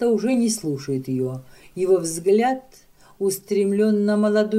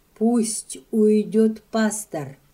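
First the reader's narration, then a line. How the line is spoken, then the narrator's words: Stammering, barely audible. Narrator (Russian): Запинаясь, еле выговаривает она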